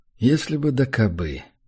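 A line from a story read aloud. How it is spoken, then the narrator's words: Sorrowful sigh. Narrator (Russian): Горестно вздохнул я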